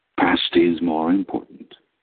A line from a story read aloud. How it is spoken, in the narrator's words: agreed gravely